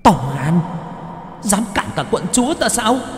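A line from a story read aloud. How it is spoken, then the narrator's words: Angry hissing. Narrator (Vietnamese): ma nữ tức giận mà rít lên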